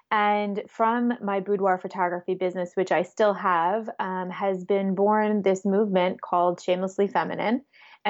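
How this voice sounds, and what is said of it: New York accent. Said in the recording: “in case you haven't heard in my accent already, located in New York. Born and raised”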